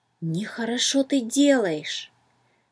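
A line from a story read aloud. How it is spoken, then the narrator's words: Whisper in ear. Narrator (Russian): словно шепнул кто-то на ухо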